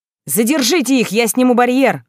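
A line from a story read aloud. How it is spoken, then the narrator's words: Shout. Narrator (Russian): выкрикнул Трей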